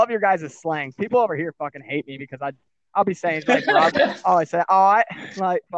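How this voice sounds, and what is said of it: Usual voice. Nothing is said of it.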